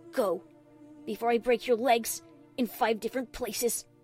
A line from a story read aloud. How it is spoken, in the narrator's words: she growled